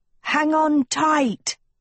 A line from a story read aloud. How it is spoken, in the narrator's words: Agatha yelled